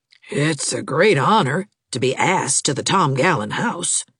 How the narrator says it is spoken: she said in a rather odd tone

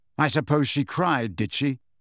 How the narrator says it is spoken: said Harry bitterly

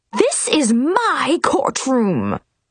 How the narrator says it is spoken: she screamed

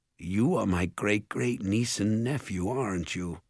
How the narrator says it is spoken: he said softly

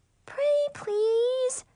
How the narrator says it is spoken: Brianna whined

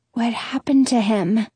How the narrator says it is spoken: ask, my voice a whisper

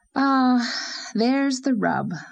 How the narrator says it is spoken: sighed Anne

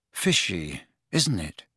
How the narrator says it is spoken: He said in an undertone to Ron

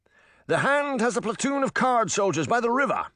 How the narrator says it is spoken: the man shouted

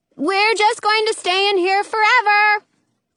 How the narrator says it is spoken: yell out the window

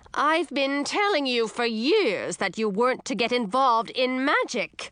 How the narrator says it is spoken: Mother said, her voice getting shrill

